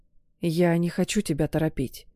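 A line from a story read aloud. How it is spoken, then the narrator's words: Whispered. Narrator (Russian): прошептал я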